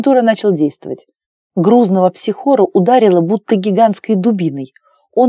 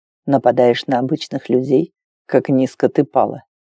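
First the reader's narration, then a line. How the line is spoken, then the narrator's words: Calm, casual tone. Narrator (Russian): произнес Вэн спокойно, словно погоду обсуждал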